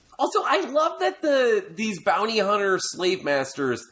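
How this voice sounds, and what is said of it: Usual voice. Nothing is said of it.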